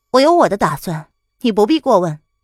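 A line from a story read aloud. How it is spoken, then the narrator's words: Calm, detached. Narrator (Chinese): 蒋灵谦淡淡的道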